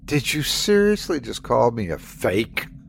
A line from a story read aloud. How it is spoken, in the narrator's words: Sandy spat